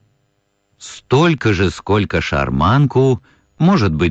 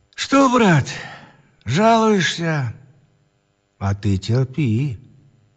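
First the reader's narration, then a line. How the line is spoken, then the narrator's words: Tender whisper. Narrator (Russian): Ладышкин шептал ласково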